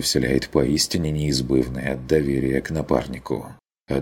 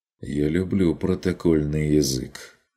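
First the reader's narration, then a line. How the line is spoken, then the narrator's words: Gloomy remark. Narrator (Russian): заметил Курт мрачно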